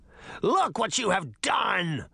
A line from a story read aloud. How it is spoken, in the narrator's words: Rumpelstiltskin shrieked